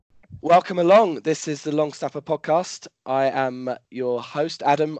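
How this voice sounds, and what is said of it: Hoarse, partly lost voice. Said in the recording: “I've slightly lost my voice”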